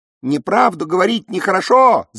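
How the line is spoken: Chicks squeaking. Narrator (Russian): запищали птенцы

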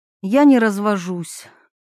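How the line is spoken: Tired sigh. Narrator (Russian): устало вздохнула Милана

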